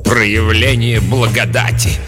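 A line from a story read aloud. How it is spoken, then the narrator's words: Contemptuous snort. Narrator (Russian): презрительно фыркнула мать-настоятельница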